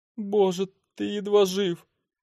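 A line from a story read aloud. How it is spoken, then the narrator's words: Choked, holding back tears. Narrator (Russian): выдавила из себя, сдерживая слезы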